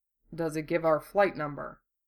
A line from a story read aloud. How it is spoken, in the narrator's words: Hiro muttered